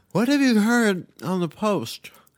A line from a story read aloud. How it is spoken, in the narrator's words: asked Pam, chewing and slurring her words